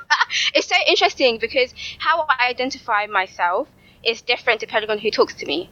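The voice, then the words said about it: London accent. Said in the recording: “your accent is London all day”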